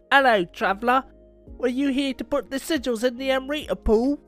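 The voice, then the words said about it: Put-on British accent. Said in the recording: “had me use like a British accent”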